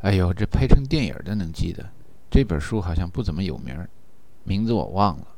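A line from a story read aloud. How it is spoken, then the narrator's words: Sighing. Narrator (Chinese): 陈达叹了口气说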